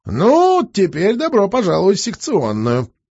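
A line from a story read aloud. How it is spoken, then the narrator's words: Cheerful patter. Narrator (Russian): продолжал весело приговаривать доктор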